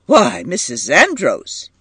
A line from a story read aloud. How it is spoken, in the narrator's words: said sharply